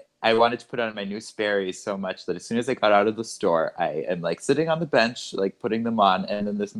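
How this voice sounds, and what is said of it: Usual voice. Nothing is said of it.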